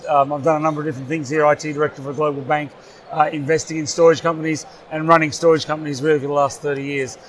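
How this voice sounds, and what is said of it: Australian accent. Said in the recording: “my silly Australian accent”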